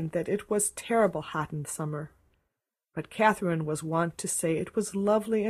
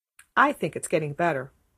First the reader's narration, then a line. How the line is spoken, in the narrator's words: said Catherine firmly